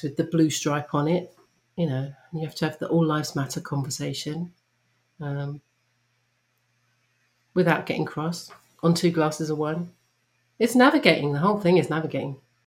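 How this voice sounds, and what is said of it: Non-American accent from across the pond. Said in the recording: “you are from across the pond and you have this delightful accent that all Americans love”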